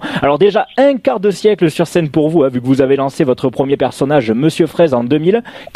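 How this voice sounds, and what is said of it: Sing-song regional French accent. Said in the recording (French): “votre accent qui chante là”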